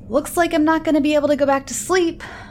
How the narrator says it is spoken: I yell in frustration

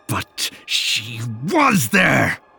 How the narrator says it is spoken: He bellowed, his face turning so red

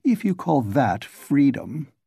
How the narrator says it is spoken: his lips formed a sneer

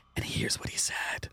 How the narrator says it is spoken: she's like whispering to her, like

